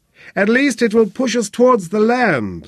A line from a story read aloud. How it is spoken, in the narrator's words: Sebastian shouted across at Flynn